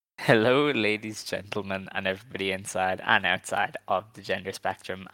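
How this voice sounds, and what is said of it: Worn-out, fading voice. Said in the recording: “My voice is already gone.”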